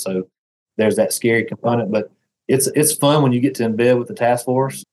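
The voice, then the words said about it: Deep Southern American accent. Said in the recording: “as you can hear from my accent ... have a slight speech impediment, have this terrible deep Southern accent”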